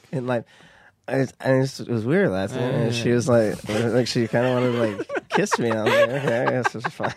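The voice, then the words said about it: Imitates another person's voice. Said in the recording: “you're good at Nick Viall ... let me hear some Nick”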